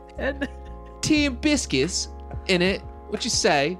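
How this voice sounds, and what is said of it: Exaggerated goofy British accent. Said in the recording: “They got the goofiest accent.”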